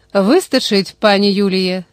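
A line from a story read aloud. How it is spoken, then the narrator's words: Calm, operator. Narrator (Ukrainian): спокійно повідомив оператор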